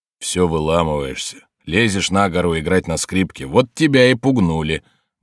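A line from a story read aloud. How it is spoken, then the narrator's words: Grumbling voice. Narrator (Russian): брюзжащим голосом заявил хозяин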